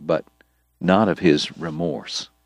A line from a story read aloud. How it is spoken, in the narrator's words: Doc told him quietly